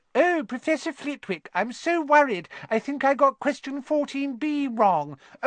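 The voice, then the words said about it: Mocking high-pitched voice. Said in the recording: “he put on a high voice”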